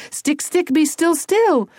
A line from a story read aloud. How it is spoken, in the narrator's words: Tony yelled